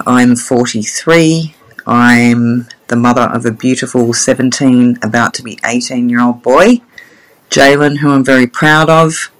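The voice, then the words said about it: Australian accent. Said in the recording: “as you can tell by my accent, I'm from Australia”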